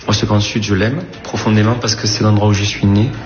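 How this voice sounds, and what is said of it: Slight southern French, Corsican accent. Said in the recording (French): “C'est le petit accent qui vous a aiguillé ... L'accent du style avec la petite Corse qui est derrière.”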